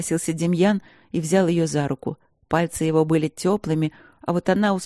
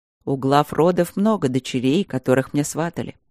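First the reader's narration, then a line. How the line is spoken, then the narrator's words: Calm reply. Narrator (Russian): спокойно отозвался ее жених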